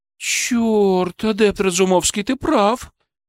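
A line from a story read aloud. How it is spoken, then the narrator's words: Breathed out. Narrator (Russian): выдохнула она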